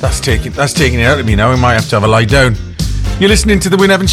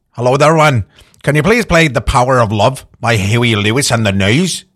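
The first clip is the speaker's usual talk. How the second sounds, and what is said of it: Put-on Northern Irish accent. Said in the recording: “Northern Ireland ... that fantastic accent”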